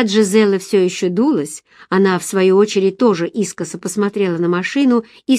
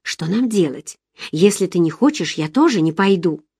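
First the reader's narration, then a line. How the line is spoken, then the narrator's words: Whispered question. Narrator (Russian): Я шепотом спросила у Джизеллы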